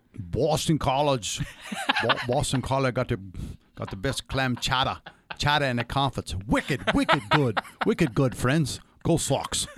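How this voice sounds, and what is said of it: Bad put-on Boston accent. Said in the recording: “the New England accent, for the Boston accent ... It's full of vowels that should lend itself to an effective Boston accent ... That's pretty bad ... That was bad.”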